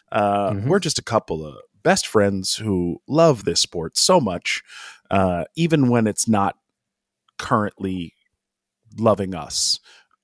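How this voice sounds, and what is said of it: Announcer-style podcast radio voice. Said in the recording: “Immediately jump into podcast radio voice.”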